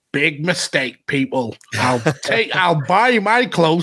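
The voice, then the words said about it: Put-on Gloucester accent. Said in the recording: “fantastic Gloucester accent”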